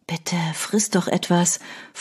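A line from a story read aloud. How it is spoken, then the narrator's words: Whisper. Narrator (German): flüsterte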